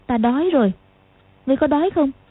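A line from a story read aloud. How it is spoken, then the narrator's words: Smiling. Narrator (Vietnamese): Lục Du Song mỉm cười nói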